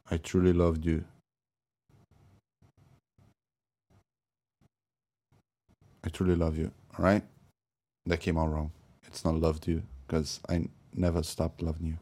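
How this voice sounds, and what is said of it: Heavy accent with mispronunciations. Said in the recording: “my heavy accent and my mispronunciations”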